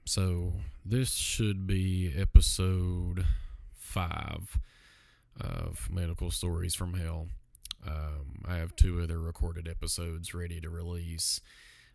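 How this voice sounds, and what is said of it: Sick-sounding voice. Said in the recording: “apologize for my voice. I've been a little sick the last couple of days.”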